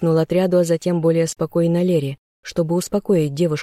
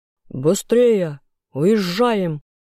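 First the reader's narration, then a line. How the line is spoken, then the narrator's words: Booming voice. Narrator (Russian): прогремел Лурсин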